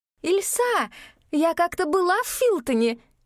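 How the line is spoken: Shouting over noise. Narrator (Russian): крикнула Габриэль, чтобы перекрыть весь гомон большого тракта

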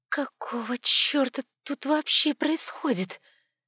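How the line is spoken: Hoarse voice. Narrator (Russian): раздался хриплый голос

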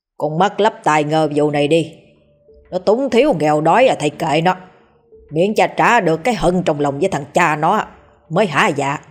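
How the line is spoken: Harsh gritted voice. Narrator (Vietnamese): Bá hộ gằn giọng

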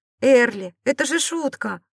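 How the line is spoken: Exclaimed. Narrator (Russian): воскликнул он

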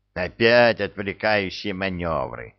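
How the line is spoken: Grumbling. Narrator (Russian): проворчал Скиннер

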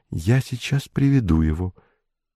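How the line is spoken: Whisper. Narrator (Russian): Она шепнула

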